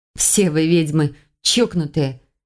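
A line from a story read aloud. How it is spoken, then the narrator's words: Muttered. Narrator (Russian): пробормотала союзница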